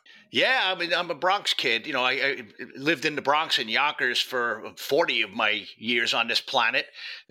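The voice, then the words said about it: New York accent. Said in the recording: “originally from new york as you may detect by his accent”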